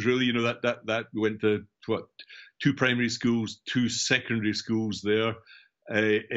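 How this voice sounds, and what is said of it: Scottish accent, central Scotland. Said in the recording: “as you can tell from my accent ... I'm obviously from Scotland, central Scotland, between Edinburgh and Glasgow”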